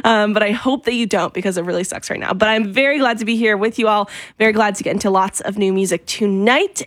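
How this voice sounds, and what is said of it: Wobbly voice from a cold. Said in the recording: “my voice is sounding a little wobbly. I have a cold.”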